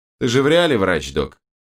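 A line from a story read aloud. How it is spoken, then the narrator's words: Pained snort. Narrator (Russian): Кривясь от боли в разодранном боку, хмыкнул Берс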